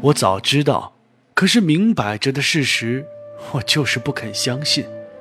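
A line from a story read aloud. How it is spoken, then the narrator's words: Sighing. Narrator (Chinese): 柳原叹道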